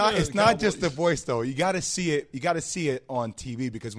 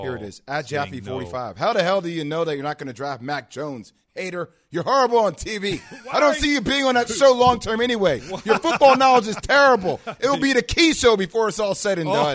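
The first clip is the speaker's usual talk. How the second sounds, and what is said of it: Announcer-style radio voice. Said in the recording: “Why are you going into that voice, though? ... So I did my radio voice.”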